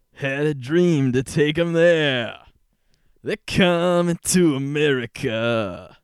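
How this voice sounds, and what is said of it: Sung imitation of another person's voice. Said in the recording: “my Neil Diamond impression ... That's actually really good.”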